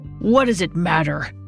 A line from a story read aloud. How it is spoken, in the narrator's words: he grumbled